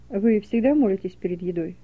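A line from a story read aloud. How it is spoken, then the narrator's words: Plain. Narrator (Russian): спросил профессор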